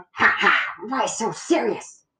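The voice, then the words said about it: Poor Joker impression voice. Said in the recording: “That was a terrible impression.”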